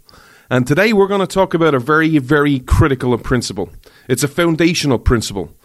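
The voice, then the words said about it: Irish accent. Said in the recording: “This Irish man ... you come for the accent”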